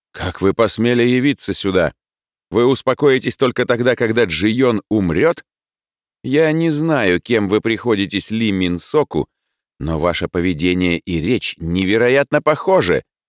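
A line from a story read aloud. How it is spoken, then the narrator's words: Furious tone. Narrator (Russian): взбешенным тоном произнес господин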